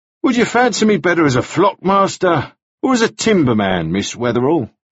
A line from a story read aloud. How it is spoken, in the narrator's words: he said, and then laughed very freely